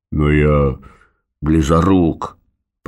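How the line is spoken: Grumbling. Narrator (Russian): проворчал Норберт

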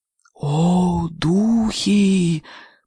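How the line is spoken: Repeated in a whisper. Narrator (Russian): повторила Джумба на этот раз шепотом

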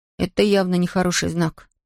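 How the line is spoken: Muttered. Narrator (Russian): пробормотал Том

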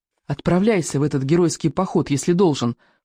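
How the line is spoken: Whisper. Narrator (Russian): прошептала моя любимая

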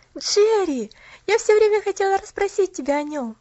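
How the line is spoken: Exclaiming. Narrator (Russian): воскликнула Поллианна

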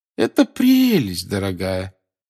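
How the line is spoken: Grandmother's forced cheerful voice. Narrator (Russian): сказала бабушка Невилл наигранно веселым голосом

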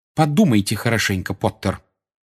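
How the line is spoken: Curt, usual tone. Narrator (Russian): отрывисто бросила профессор МакГонагал, вернувшись к своему обычному тону

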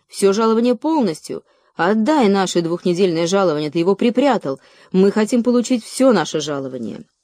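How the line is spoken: Many voices shouting. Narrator (Russian): Другие голоса закричали

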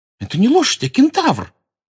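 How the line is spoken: Indignant exclamation. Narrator (Russian): возмущенно воскликнула Лаванда

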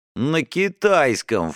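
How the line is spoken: Snort. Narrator (Russian): фыркнул Стас

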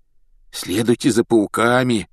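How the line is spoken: Hoarse rasp. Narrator (Russian): прохрипел он

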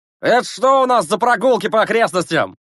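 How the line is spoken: Shouting. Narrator (Russian): закричал он

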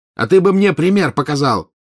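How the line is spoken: Angry shout. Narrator (Russian): крикнул в ответ красный злой Маклаген

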